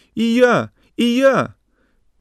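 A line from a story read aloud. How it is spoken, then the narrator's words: Thin high-pitched shout. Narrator (Russian): Тоненьким голоском кричал Рыжий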